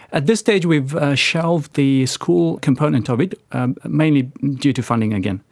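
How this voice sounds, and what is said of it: South African accent. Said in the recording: “a South African accent”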